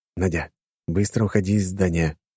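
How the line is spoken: Whispered. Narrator (Russian): шепнул я ей

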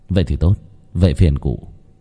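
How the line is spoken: Soft smiling. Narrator (Vietnamese): Khánh khẽ mỉm cười

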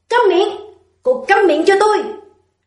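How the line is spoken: Loud shouting. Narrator (Vietnamese): Lâm Tử Hàn hét lớn

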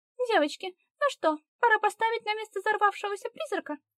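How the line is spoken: Cheerful and perky. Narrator (Russian): Голос Агнеды прозвучал весело и задорно, будто она не в опасной обстановке, а вышла с подругами на прогулку

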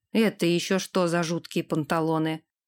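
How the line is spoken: Muttering. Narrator (Russian): пробормотал он

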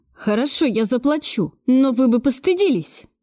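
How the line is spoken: Desperate exclamation. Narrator (Russian): в отчаянии воскликнул Кравцов

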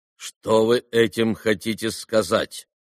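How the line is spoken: Stern question. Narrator (Russian): строго спросил председатель

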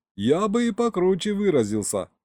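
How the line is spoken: Chuckling. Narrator (Russian): хохотнул Саня

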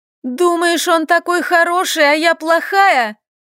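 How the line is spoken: Loud shout. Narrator (Russian): Громко закричала она

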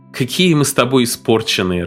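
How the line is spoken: Laughing. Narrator (Russian): рассмеялась она

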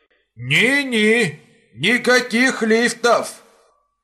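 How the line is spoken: Shouting. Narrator (Russian): закричал Иван Петрович

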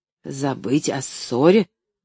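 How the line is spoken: Indignant repetition. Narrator (Russian): возмущенно повторил доктор

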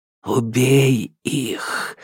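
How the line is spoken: Insinuating whisper. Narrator (Russian): вкрадчиво шептала тьма

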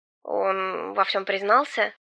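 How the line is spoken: Confused mumble. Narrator (Russian): Пробормотал сын с непониманием

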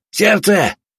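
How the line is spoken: Shout. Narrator (Russian): крикнул

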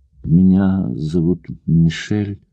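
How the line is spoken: Slow young woman's voice. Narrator (Russian): медленно проговорила девушка

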